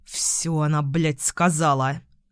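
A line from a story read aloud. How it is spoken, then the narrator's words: Grumbled. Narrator (Russian): буркнул Костров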